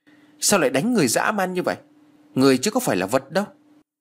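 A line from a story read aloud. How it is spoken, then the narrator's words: Loud shout. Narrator (Vietnamese): Anh quát lớn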